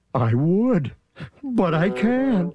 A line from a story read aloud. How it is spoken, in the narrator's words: sobbed poor Thidwick